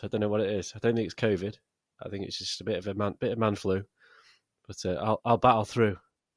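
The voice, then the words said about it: Sick, under-the-weather voice. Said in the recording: “A little bit under the weather, actually, this week. So you might hear it in my voice.”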